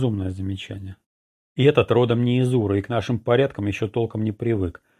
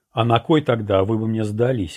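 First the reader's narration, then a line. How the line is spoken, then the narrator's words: Laughing. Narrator (Russian): рассмеялся я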